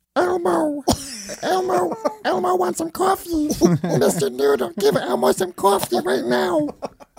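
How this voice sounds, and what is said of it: Elmo impression, high puppet voice. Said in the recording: “could do an Elmo ... it hurts me physically ... It hurts your throat? ... That's pretty good, right? ... Not bad.”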